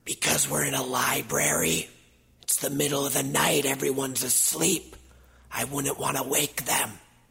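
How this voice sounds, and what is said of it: Whispering, very quiet voice. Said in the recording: “Why are you whispering? ... You always whisper. ... It's as loud as I can speak.”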